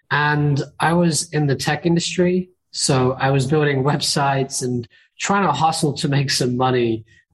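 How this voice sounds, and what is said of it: British accent. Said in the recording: “I started in the UK, as you can probably tell by my accent.”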